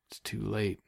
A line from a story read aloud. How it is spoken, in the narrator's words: Wynne murmured